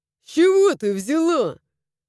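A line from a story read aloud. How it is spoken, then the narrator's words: Snorting. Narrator (Russian): хмыкнул мой друг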